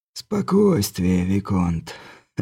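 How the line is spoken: Quiet laugh. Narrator (Russian): Негромко рассмеялся герцог Тальм

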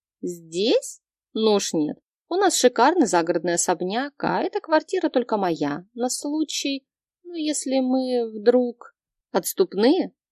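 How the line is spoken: Snorting, speculative. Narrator (Russian): Хмыкнув, предположила я

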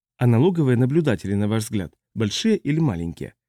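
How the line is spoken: Soft question. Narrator (Russian): мягко спросил Балин

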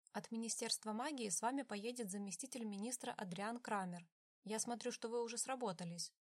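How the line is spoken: Plain. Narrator (Russian): ответил министр

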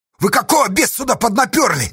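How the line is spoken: Shout. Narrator (Russian): крикнул Асташа

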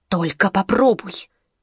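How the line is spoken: Hissed. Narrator (Russian): миссис грозно подняла палец и прошипела

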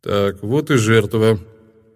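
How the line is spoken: Calm. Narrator (Russian): спокойно произнес Нибматра

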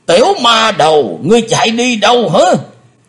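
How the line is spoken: Roaring. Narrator (Vietnamese): tiếng gầm rống

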